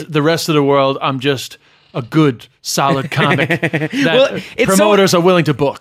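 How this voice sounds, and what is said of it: Irish speaker with semi-American accent. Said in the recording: “despite my sort of semi-American accent, I'm kind of like an Irish superstar”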